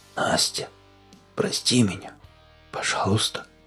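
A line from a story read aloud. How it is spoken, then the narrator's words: Barely audible whisper. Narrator (Russian): она едва слышно прошептала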